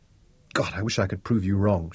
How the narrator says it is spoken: Shaza whispered

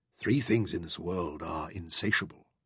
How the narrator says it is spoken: the Mahdi murmured

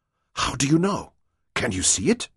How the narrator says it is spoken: she panted

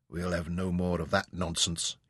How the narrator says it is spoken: he muttered

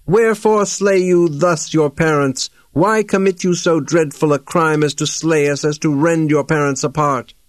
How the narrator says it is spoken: with cries and groans of woe they shriek aloud

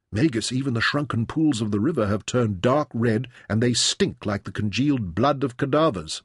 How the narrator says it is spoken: Merin said

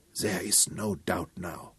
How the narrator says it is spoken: Von Schiller whispered

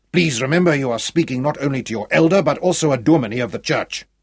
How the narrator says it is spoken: growled

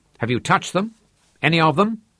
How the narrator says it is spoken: demanded sharply

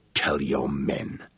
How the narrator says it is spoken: he said, his voice thick and grating with his anger

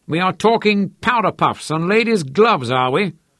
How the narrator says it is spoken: Uncle Tromp roared

